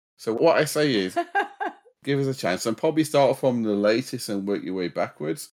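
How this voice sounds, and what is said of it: Yorkshire English accent. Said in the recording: “What part of the country is your accent from? ... it's a Yorkshire accent”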